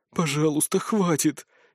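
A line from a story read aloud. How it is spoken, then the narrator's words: Barely audible whisper. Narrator (Russian): еле слышно прошептала Варра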